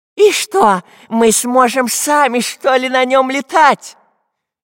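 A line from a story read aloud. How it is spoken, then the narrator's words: Frightened question. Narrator (Russian): испуганно спросил шпион дырка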